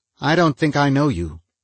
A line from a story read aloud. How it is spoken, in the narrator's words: he said in a tight little voice